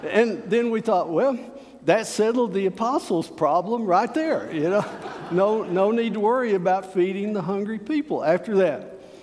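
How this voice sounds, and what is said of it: Slow West Texas drawl. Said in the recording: “I don't talk fast anyway. I've got this West Texas drawl”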